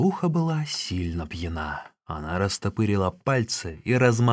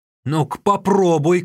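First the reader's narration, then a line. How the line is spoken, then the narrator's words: Shout. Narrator (Russian): крикнул Тан Нюэр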